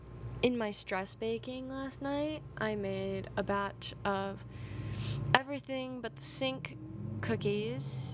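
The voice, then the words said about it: Tired voice with vocal fry. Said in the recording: “Oh, I'm very tired right now. You can probably tell my voice has gotten, like, more vocal fry the longer I've talked”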